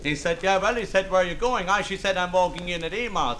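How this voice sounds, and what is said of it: Pennsylvania Dutch German accent. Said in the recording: “a Finnish accent? ... It is Pennsylvania Dutch, as in, yes, German.”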